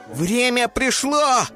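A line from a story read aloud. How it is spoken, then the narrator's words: Eaglet shouting. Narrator (Russian): крикнул орленок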